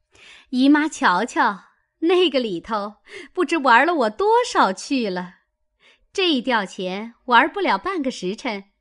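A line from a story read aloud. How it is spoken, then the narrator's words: Laughing. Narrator (Chinese): 凤姐儿 笑道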